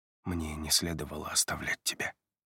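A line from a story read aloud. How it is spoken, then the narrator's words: Muttering. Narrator (Russian): бормочет он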